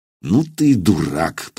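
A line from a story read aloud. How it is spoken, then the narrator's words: Grumbling. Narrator (Russian): проворчал Илья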